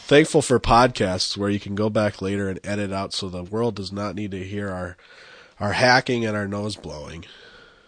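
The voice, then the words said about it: Voice sounds congested from cold. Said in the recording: “as you can hear in my voice, I'm fighting a tail end of a cold”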